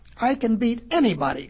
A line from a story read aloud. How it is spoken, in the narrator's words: cried the hare